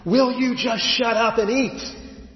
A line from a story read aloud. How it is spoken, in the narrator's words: He gets right in his toddler's face, eyeball to eyeball, and he screams